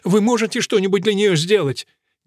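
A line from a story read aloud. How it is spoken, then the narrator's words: Asking, close to tears. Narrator (Russian): Вулфрик, который, казалось, вот-вот разрыдается, спросил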